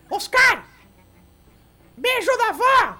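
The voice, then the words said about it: Shouting loudly. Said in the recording (Portuguese): “tá gritando?”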